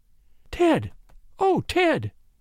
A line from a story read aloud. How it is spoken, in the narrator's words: she gasped